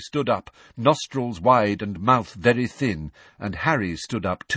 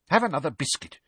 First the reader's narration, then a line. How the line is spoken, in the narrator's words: she said irritably